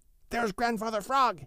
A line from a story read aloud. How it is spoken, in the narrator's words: he shouted